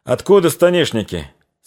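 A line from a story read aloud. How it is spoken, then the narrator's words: Plain. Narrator (Russian): спросил один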